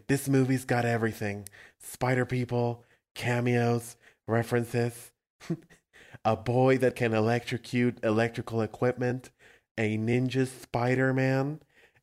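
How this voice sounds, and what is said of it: Imitates another person's voice. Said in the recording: “I'm going to do a Bill Hader thing ... That's my Bill Hader impression ... Doing Stefan.”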